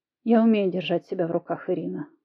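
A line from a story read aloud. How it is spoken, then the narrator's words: Calm remark. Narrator (Russian): заметил спокойно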